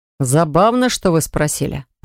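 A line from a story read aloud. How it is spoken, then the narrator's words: Grumble. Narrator (Russian): проворчал Ланс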